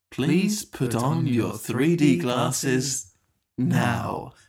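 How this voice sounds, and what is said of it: Weird put-on announcer-style voice. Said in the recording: “did a weird voice”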